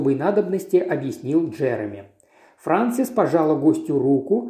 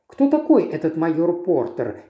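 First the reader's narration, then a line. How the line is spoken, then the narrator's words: Plain. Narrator (Russian): спросила она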